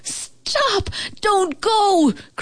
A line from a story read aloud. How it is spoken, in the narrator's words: cried the old house